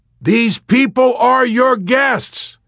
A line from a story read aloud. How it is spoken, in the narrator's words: he shouted suddenly